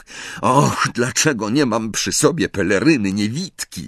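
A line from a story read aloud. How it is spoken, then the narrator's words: Groaned. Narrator (Polish): jęknął Harry, przeklinając w duchu własną głupotę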